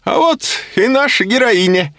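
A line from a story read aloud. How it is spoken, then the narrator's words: Cheerful shout. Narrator (Russian): весело закричал профессор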